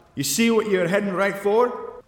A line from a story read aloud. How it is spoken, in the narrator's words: Jack shouts from behind